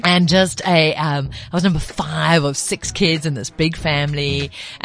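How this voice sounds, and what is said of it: Mixed, hard-to-place English accent. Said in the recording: “my accent doesn't sound like it, but I'm actually a Zulu chick ... my accent's all over the place”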